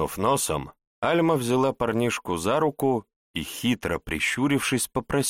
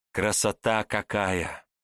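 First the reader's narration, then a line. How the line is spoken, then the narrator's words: Soft, slightly envious. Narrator (Russian): С неким оттенком зависти негромко произнесла девчонка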